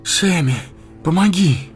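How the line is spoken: Breathless exhale. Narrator (Russian): выдохнул он

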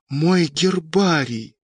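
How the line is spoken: Hiss. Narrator (Russian): прошипел Сашка

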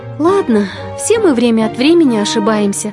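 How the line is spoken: Sighing. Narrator (Russian): вздохнула

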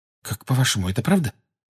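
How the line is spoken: Anxious whisper. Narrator (Russian): тревожно прошептала Гермиона Гарри и Рону

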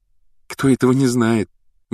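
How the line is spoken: Loud whisper. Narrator (Russian): громко прошептала Гермиона

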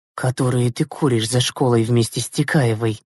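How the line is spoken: Merciless whisper. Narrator (Russian): безжалостно прошептала Зюзина

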